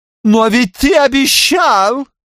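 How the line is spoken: Wailed. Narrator (Russian): взвыла Зорка

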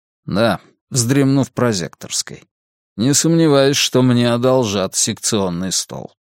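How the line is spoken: Grim joke. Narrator (Russian): мрачно пошутил Варгас

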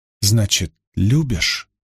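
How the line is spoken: Small voice whispering. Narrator (Russian): прошептал тихий голосок

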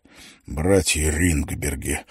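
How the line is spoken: Wheezed, hoarse. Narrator (Russian): прохрипел Лелли

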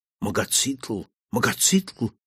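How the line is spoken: Terrified whispering. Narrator (Russian): в суеверном ужасе шептали марсиане

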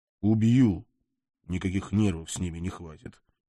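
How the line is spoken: Quiet promise. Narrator (Russian): тихо пообещал я

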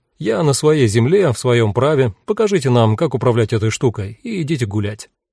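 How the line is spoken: Casual, everyday tone. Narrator (Russian): сказал таким обыденным тоном, словно просил зажигалку

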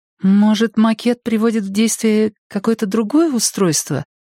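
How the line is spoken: Unsure suggestion. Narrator (Russian): неуверенно предположила Шири

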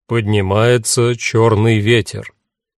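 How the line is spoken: Stern radio voice. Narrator (Russian): приемник строго сказал

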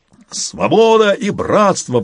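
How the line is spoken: Howling. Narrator (Russian): взвыл Боливар

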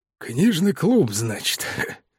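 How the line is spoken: Skeptical snort. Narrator (Russian): хмыкнул мистер Питерсон

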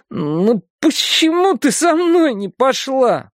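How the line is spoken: Whine. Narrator (Russian): прохныкал он

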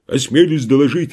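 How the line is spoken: Bark. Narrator (Russian): рявкнул капрал

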